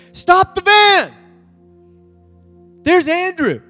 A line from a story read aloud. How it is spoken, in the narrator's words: one of the students hollers and says